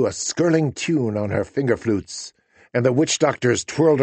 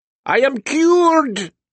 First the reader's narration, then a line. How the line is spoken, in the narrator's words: the former joker cried